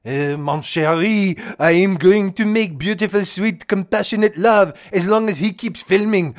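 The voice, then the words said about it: Trump with put-on French accent. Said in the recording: “Trump puts on a French accent when he makes love to your wife”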